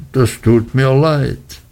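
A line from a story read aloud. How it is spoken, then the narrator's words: Sad. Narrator (German): sagte er und schaute sehr traurig drein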